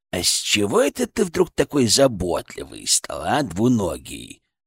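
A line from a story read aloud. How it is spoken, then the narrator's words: Creaky voice. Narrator (Russian): проскрипел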